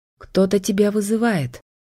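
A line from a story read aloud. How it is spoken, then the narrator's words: Trembling voice. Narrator (Russian): дрогнувшим голосом сказала я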